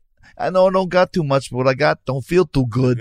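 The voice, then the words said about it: New York accent impression, Tatum O'Neal. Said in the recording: “She leaned into a bit of a, ... a little New York. ... A New York”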